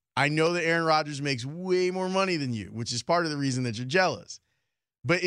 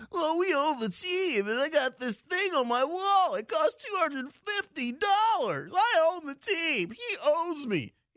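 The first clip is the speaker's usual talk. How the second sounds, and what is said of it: Whiny entitled Packers fan impression. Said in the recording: “good Packers fan impersonation ... A little more hillbilly in there ... the whining aspect of it. The entitlement aspect of it.”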